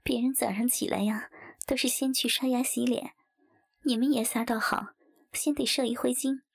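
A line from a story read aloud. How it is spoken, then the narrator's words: Laughing. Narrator (Chinese): 王翠花一边笑道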